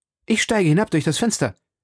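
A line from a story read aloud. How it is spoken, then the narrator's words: Called out. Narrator (German): rief D'Artagnan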